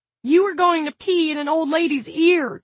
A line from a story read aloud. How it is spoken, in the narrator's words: cried Jared